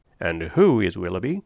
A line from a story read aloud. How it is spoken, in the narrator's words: said he, in a low voice, to Miss Dashwood